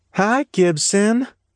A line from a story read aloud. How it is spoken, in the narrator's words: Betty Sue said, her voice cheery